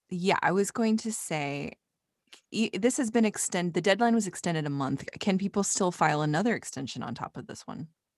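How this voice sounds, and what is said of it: Thick accent. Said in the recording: “my accent has been real thick”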